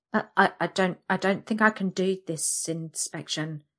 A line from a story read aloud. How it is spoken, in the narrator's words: I stammer